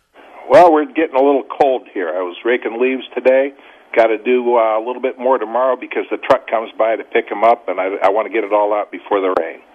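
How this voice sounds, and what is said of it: Boston accent. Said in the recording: “Boston listeners, I know, are loving hearing your accent, brother. ... It's hard for you to hide it.”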